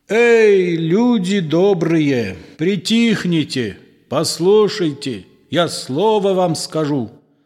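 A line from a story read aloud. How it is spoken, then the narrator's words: Loud shouting. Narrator (Russian): громким голосом кричит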